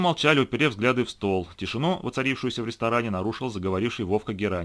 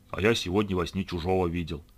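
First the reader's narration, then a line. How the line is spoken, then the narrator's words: Mysterious tone. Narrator (Russian): загадочным тоном произнес он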